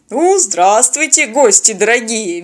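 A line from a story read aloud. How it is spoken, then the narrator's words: Cheerful booming voice. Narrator (Russian): весело прогудел казак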